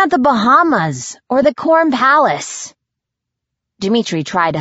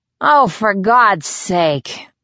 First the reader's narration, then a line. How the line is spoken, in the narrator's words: I moaned